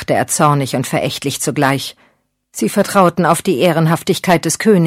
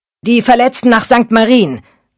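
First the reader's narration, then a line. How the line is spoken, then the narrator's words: Calling out to someone. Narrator (German): rief er einem Mann zu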